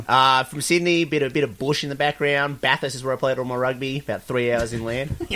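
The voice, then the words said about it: Strong Australian accent. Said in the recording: “If you can't tell by our accents, ... is from Australia ... I didn't even understand the word.”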